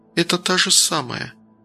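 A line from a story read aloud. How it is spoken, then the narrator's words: Quiet, barely mouthed. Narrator (Russian): тихо одними губами произнесла Ника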